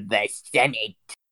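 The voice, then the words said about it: Evil Emperor Palpatine impression. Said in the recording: “the evil way that, like, Emperor Palpatine said the Senate ... that kind of, like, evil Palpatine accent”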